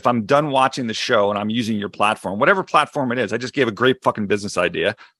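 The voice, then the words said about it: Philadelphia accent. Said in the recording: “my Philly accent”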